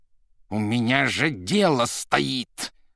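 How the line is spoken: Growling. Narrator (Russian): уже рычал Римский

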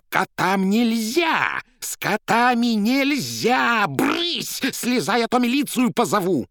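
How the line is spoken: Furious trembling shout. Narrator (Russian): Та со злобой, от которой даже тряслась, закричала

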